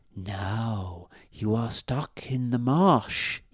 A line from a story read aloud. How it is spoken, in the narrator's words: whispered